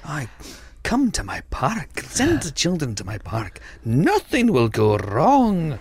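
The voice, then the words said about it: Put-on Scottish accent. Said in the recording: “That's a Scottish accent. ... That was amazing.”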